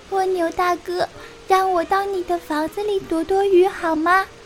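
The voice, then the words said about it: Tiny, small voice. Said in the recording (Chinese): “一个细小的声音”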